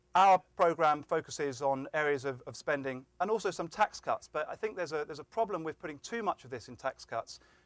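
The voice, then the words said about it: Speaks with a noticeable accent. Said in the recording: “if you're worried about my accent, this is not a socialist plot”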